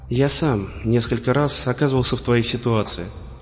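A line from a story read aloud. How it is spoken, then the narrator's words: Quiet reply. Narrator (Russian): негромко ответил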